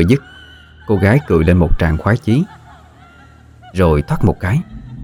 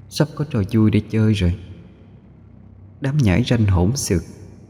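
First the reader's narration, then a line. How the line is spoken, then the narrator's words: Slow smirking voice. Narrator (Vietnamese): cô khẽ nhếch lên một nụ cười, chậm rãi nói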